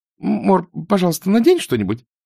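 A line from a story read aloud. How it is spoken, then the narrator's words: Stammering babble. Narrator (Russian): пролепетала Изабель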